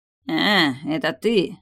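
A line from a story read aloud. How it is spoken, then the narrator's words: Grumble. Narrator (Russian): проворчала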